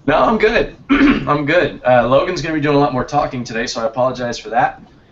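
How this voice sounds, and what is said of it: Strained, sick-sounding voice. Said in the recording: “I apologize for my voice. I'm struggling a little bit, wrapping up a cold here”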